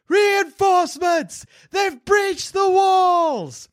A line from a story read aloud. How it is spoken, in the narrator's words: The screams echo rolling towards you, crying out